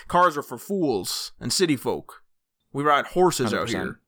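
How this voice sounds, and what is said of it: Put-on cowboy voice. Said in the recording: “putting on my cowboy voice.”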